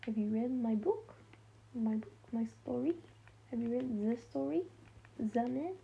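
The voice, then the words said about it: Terrible fake French accent. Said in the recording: “French accent ... put on a fake French accent. It's terrible. It's honestly terrible.”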